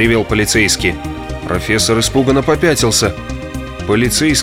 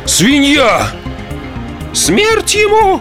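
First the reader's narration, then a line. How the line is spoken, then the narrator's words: Indignant women shouting together. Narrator (Russian): В один голос закричали несколько возмущенных дам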